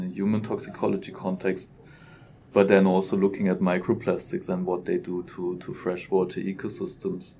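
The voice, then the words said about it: German accent. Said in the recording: “As you clearly hear by the accent, I'm German”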